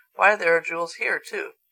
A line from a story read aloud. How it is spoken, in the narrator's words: Betsy exclaimed